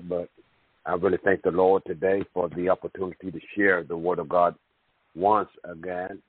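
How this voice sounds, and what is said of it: Strained, nearly lost voice. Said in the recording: “I'm almost losing my voice here”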